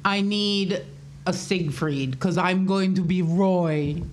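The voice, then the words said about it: Put-on German accent. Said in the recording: “That was a German accent. ... That was great.”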